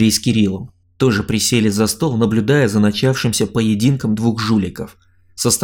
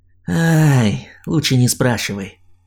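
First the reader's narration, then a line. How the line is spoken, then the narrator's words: Tired exhale. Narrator (Russian): устало выдохнул он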